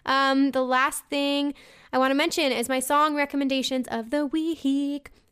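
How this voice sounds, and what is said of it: Hoarse, fading voice. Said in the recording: “I'm starting to get a little loopy here and I'm losing my voice.”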